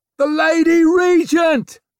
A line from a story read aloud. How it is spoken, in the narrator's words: almost screamed